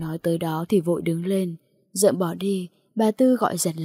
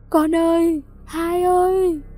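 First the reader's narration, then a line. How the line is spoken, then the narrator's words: Grief-stricken wail. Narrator (Vietnamese): bà Tư gào lên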